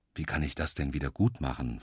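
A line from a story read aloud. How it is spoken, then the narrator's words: Plain. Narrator (German): fragt er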